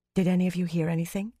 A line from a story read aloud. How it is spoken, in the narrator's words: Fail whispered